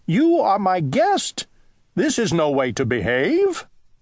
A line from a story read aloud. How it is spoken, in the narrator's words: cried Owl